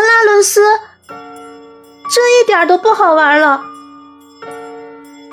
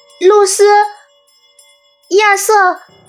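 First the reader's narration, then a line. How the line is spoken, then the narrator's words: Trembling cry. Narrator (Chinese): 她颤声喊叫着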